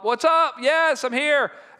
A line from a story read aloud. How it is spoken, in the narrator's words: I'll yell up